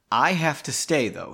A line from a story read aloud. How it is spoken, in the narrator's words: she said